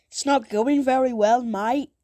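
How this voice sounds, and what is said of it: Poor British accent, sounds Australian. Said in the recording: “Now I'm trying to do a British accent. ... I can't do a British accent. It's like British and Australian, and that's just a mixer.”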